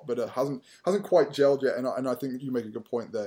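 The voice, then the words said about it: British-tinged English accent. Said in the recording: “half British, in case you couldn't tell from the accent.”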